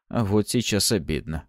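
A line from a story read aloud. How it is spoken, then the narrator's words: Wry snort. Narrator (Russian): хмыкнул я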